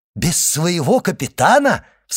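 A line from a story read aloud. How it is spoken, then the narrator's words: Excited exclamation. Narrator (Russian): вскричал Дантес, и глаза его радостно заблестели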